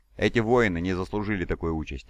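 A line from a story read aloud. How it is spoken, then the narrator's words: Plain. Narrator (Russian): сказал подошедший Таргадон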